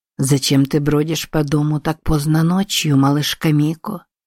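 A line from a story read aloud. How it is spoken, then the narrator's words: Purring in her ear. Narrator (Russian): промурлыкал Широ ей на ухо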